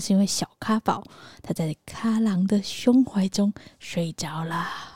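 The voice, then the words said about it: Speaking quietly, hushed voice. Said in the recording (Chinese): “为什么我要那么小声？”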